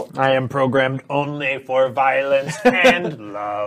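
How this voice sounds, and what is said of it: Flat monotone robot voice. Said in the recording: “monotone? ... The monotone monodrone?”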